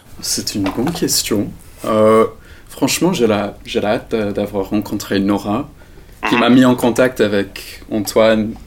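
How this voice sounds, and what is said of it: Slight English accent. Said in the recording (French): “il vient d'Angleterre, donc le petit accent qu'on a entendu, c'est ça.”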